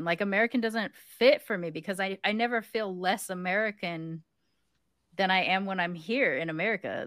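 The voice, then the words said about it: American accent. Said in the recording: “They hear my accent, American.”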